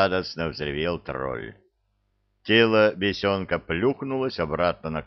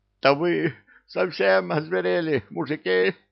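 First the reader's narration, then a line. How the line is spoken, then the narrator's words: Hoarse, sober voice. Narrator (Russian): просипел Бессони абсолютно трезвым голосом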